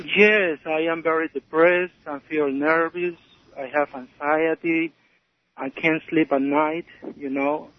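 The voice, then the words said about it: Foreign accent in English. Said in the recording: “I hear an accent.”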